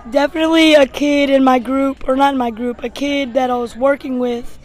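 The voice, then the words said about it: Hoarse, nearly lost voice. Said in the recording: “He did that all without a voice, apparently ... you sound really hoarse.”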